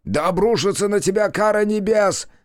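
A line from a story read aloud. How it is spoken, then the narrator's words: Man yelling. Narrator (Russian): орал мужчина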